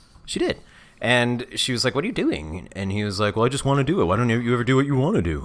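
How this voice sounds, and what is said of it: Usual voice. Nothing is said of it.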